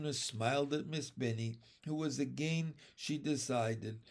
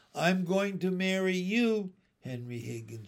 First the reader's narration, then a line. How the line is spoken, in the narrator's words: she called out